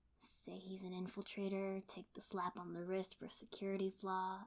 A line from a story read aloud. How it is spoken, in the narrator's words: I mumbled